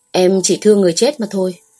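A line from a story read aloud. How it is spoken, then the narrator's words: Cold. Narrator (Vietnamese): lạnh lùng nói một câu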